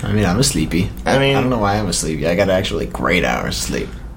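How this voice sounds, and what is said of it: Tired, droning, monotone voice. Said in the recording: “tired ... drony today. Like drone-y ... A little downtrodden ... we have that tone of voice right now that's like, I don't really want to put effort into my voice. I'm just going to like try to be as monotone and like as mellow as possible.”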